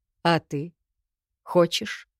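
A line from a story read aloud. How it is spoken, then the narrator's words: Surprisingly calm question. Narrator (Russian): Удивительно спокойно спросил он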